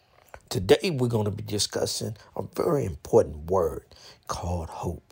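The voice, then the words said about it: Weak, recovering voice. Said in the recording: “I lost my voice, but I got enough back to produce this podcast”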